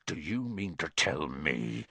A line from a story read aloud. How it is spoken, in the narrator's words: he growled at the Dursleys